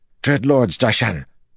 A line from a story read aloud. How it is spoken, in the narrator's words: Nerishma said, panting